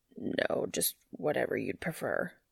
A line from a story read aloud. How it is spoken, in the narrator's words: he finally manages to croak